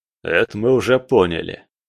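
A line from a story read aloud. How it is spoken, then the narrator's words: Snorting. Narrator (Russian): фыркнул Салазар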